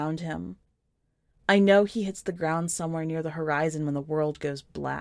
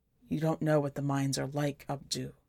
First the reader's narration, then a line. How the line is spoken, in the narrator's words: he whispers, almost begging